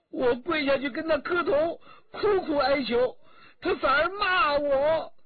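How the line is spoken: Crying. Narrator (Chinese): 新燕哭着说

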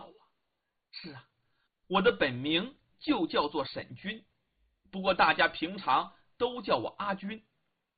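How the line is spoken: Shy girl, smiling. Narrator (Chinese): 阿军姑娘腼腆的一笑

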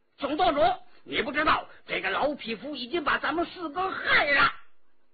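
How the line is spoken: Loud shout. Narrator (Chinese): 张晋大叫起来

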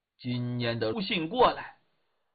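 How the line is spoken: Mumbling. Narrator (Chinese): 狄仁杰在那嘟囔

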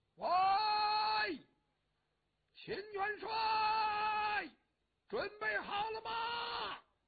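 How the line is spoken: Calling out. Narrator (Chinese): 上士图站在这边冲那边喊

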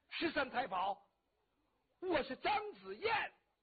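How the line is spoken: Urgent shout. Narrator (Chinese): 张子燕情急之下喊了一声

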